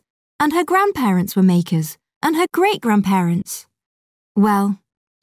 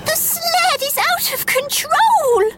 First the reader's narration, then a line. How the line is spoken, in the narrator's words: shouted Jingle in a panic